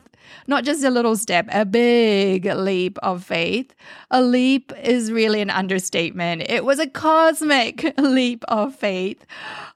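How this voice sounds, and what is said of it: New Zealand accent with Canadian mix. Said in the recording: “wondering if I am from Australia, England, or even South Africa ... I am actually from beautiful New Zealand, but Canada has now been home for many years, hence the accent or a mix of accents all merged into one”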